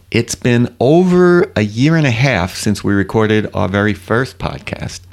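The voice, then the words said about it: New York Long Island accent. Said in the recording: “Do I have a New York accent? ... That sounds like Long Island to me.”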